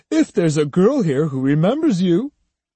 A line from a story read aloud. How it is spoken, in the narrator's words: Judo said, laughing